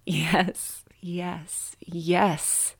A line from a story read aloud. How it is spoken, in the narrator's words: she replied, her voice deep and husky